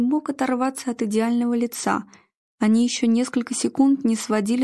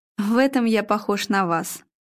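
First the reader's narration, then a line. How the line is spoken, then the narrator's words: Theatrical sigh. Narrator (Russian): Игорь театрально вздохнул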